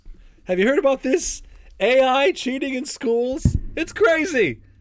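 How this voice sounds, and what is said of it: Imitates another person's voice. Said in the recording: “good Jerry Seinfeld impression”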